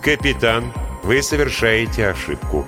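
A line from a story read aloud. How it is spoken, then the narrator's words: Calm, unruffled. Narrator (Russian): сказал Линь тем же спокойным голосом, как будто между ними ничего не произошло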